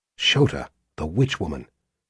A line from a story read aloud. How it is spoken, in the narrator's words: she whispered confidentially